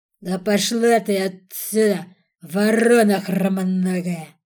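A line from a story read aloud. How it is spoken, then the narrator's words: Terrifying shout. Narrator (Russian): Страшным голосом прикрикнул на нее Борис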